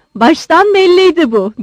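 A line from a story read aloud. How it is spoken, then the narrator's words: Shouted. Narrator (Turkish): diye bağırdı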